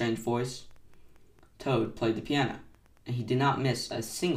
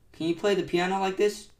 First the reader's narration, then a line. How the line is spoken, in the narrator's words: cried Toad